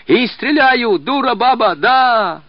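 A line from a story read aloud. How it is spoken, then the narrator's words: Yelling in rising rage. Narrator (Russian): орал Яшка, закипая новой яростью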